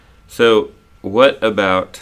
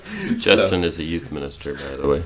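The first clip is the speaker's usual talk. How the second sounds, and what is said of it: Smooth radio announcer voice. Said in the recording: “You got a good radio voice.”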